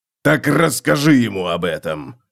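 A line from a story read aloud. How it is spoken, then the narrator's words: Barked. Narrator (Russian): рявкнул Готрек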